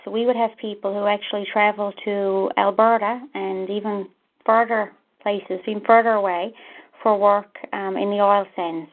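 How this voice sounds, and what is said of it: Slight regional accent. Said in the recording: “a little bit of an accent, at least listening with a U.S. accent”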